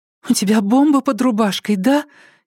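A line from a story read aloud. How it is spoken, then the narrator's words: Frightened whisper, woman. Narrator (Russian): испуганным шепотом спросила блондинка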